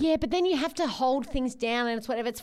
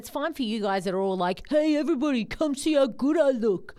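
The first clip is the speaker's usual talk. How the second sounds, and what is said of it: Impression of a friend's voice. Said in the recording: “That's the best impersonation of Tom I've ever seen. ... You sound exactly like that.”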